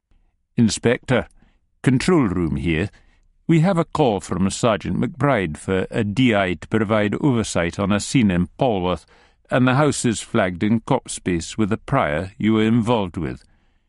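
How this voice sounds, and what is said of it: Quiet voice, pronounced Ayrshire accent. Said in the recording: “a still, small voice with a pronounced Ayrshire accent in your right ear”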